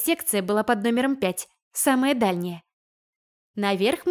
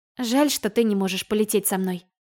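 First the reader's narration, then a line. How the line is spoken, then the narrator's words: Sigh. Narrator (Russian): вздохнула я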